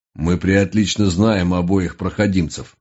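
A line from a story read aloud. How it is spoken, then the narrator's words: Caustic mutter. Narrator (Russian): едко буркнул Хаггинс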